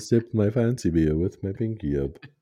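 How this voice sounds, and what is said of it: Weak attempt at posh UK accent. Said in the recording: “I know that's not a UK accent.”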